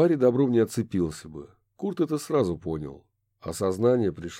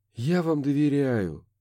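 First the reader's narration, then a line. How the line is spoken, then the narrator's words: Sighing. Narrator (Russian): вздохнул Курт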